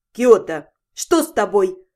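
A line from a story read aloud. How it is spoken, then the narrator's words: Stern question. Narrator (Russian): строго спросила Зальфия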